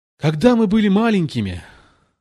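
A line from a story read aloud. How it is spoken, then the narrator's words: Less pathetic, occasional lament. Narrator (Russian): заговорил деликатес менее патетическим тоном, хотя время от времени, возвращаясь к прежним стенаниям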